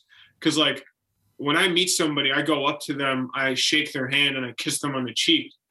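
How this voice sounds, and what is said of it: Midwestern American accent. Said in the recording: “you have a Midwestern accent. You sound like you're from Chicago”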